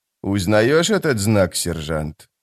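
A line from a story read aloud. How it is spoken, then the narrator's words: Quiet question, killer. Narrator (Russian): тихо спросил убийца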